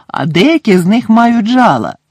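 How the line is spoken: Cheerful reply. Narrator (Ukrainian): радісно відповів Гегрід

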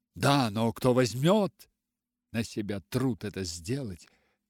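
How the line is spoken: Doctor asking. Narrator (Russian): спросил доктор

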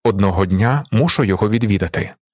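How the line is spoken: Plain. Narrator (Ukrainian): відповів він

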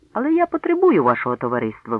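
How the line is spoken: Exclaiming. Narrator (Ukrainian): вигукнув

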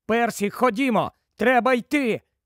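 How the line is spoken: Shouting. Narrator (Ukrainian): Гаррі закричав йому

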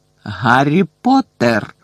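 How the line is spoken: Exclamation. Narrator (Ukrainian): вигукнув знову

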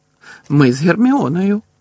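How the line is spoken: Laughing. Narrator (Ukrainian): Муді засміявся

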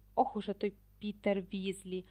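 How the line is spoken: Hissed. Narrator (Ukrainian): прошипів Мелфой

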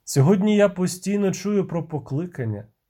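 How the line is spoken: Sigh. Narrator (Ukrainian): зітхнув Геральт

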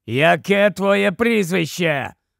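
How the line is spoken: Growling. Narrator (Ukrainian): прогарчав Грейбек

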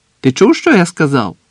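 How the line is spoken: Captain's shout. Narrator (Ukrainian): крикнув капітан

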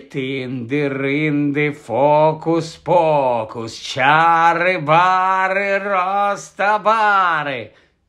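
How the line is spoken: Scary voice. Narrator (Ukrainian): Страшним голосом почав вимовляти Гаррі

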